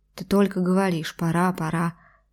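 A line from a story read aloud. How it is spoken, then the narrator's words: Displeased muttering. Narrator (Russian): недовольно пробормотала феминистка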